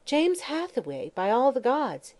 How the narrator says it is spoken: he exclaimed, adding in wondering tones

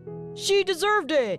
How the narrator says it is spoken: shouted someone from the crowd

